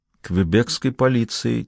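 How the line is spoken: Quiet. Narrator (Russian): тихо произнесла она

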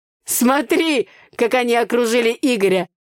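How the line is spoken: Laughing. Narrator (Russian): Рассмеялся Митя

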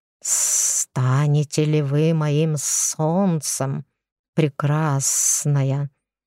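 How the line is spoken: Hissing. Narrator (Russian): прошипел

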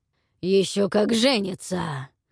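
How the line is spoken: Angry, hoarse, between coughs. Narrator (Russian): Между приступами хриплого кашля со злостью выдавил из себя Сигфрид

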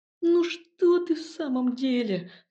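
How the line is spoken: Pleading. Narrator (Russian): взмолился Илья

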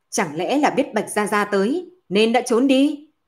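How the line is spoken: Shouting. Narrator (Vietnamese): Bạch Long quát

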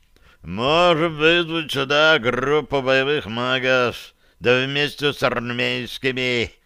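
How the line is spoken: Menacing growl. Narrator (Russian): угрожающе прорычал Барри

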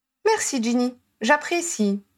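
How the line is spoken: Brother's composed reply. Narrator (French): répondit son frère d'un ton posé

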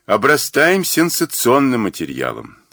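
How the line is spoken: Grumble. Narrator (Russian): проворчал Мазур

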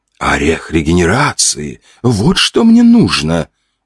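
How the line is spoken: Exclamation. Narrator (Russian): воскликнула Олла

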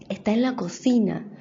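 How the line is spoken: Whisper in ear. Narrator (Spanish): le susurró en la oreja

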